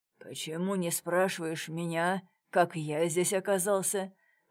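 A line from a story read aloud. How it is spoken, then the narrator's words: Hoarse wheeze. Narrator (Russian): прохрипел комиссар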